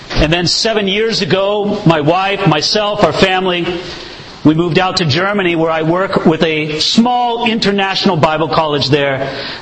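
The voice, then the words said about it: Southern Californian American accent. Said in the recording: “You can tell from my accent that I'm not from around these parts. I come from Southern California”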